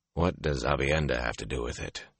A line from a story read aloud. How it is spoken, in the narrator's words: He muttered